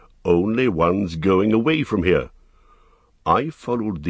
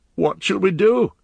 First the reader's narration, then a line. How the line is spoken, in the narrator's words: he cried